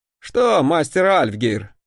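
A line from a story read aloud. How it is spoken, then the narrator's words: Chuckling. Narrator (Russian): хохотнул я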